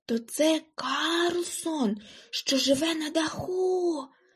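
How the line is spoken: Whispered. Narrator (Ukrainian): прошепотіла Гуніла

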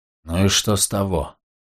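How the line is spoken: Grumbling mutter. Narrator (Russian): буркнул Клей

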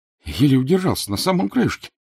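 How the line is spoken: Trembling voice. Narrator (Russian): дрожащим голосом говорил уцелевший из первого ряда

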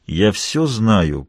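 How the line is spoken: Through gritted teeth. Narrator (Russian): произнес я сквозь зубы

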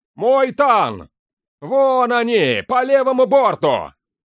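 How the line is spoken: Shout from afar. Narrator (Russian): крикнул дозорный с мачты

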